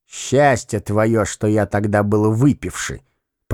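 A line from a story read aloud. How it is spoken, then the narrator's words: Grumbled aloud. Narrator (Russian): проворчал он вслух вслед Велилептову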